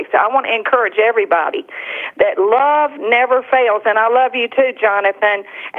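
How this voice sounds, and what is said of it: South Carolina accent. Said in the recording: “sounds so much much better in a South Carolina accent”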